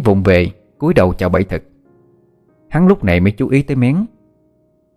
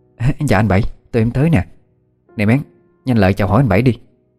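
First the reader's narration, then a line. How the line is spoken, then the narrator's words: Eager flustered greeting. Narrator (Vietnamese): rối rít chào hỏi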